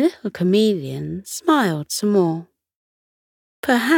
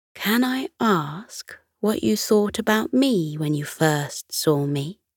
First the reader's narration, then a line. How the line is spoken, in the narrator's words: In a softer tone, she said